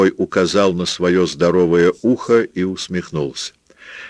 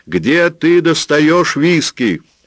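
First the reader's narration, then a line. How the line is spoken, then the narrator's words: Shouting. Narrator (Russian): закричал Роберт Джордан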